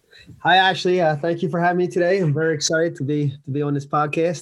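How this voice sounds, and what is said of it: New York or New Jersey accent. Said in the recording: “a New York accent, New Jersey accent”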